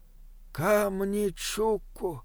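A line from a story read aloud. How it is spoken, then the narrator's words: Breathed out. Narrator (Russian): выдохнул Бинабик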